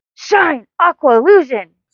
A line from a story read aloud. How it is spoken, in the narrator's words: Sailor Mercury yells